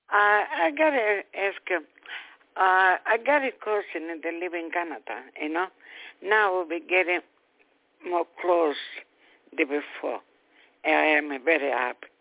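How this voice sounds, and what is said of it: Strong hard-to-understand accent. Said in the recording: “sometimes I have a hard time understanding your accent.”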